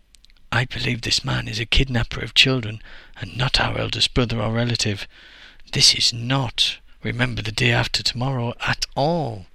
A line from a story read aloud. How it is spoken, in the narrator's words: whispered back to Deji